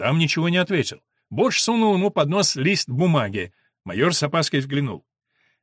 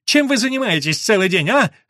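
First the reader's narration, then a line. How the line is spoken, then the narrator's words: Shout. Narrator (Russian): заорал Бодж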